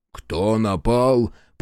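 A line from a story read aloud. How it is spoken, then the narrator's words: Growled. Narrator (Russian): прорычал Ринго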